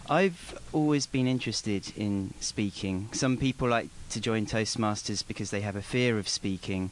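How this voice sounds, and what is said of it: English accent. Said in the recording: “you got an accent”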